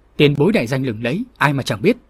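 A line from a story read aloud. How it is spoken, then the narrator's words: Clear mocking youthful voice. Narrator (Vietnamese): Thiếu niên nọ trở môi làm xấu với giọng lanh lảnh nói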